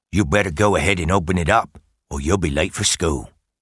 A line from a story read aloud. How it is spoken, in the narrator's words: Grandpa Joe said